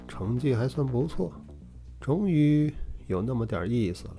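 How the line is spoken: Calm, flat. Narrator (Chinese): 淡淡的说道

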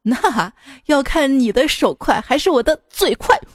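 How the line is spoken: Cold sneer. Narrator (Chinese): 这男的 冷笑道

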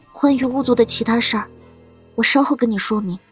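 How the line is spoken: Hushed. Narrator (Chinese): 苏黎……压低声音道

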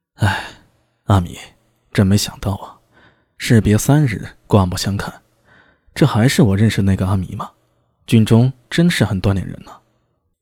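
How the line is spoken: Surprised sigh. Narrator (Chinese): 安文生有些诧异的……叹道

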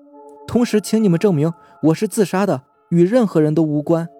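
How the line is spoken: Sudden scream. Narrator (Chinese): 梁丽突然大叫一声

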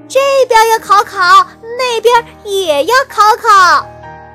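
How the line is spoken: Loud. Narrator (Chinese): 熊二大声说

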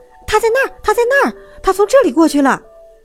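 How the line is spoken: Children shouting. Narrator (Chinese): 孩子们叫着

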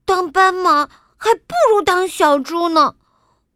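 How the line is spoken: Sighing. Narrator (Chinese): 小猪叹了口气

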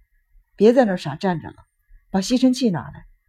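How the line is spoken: Cold. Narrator (Chinese): 智穗……冷冷地说

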